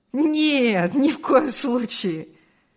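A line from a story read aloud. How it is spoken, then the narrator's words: Laughing. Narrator (Russian): рассмеялся Артур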